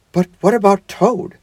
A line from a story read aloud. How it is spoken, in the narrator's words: asked the mole anxiously